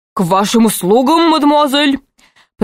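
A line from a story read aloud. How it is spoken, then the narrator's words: Strained bass voice. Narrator (Russian): произнес он натужным басом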